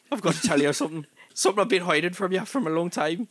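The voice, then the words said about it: Put-on Irish-Scottish accent, shifting. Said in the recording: “I feel like I'm switching between Belfast and something else... Your accent is changing... I'm actually Scottish”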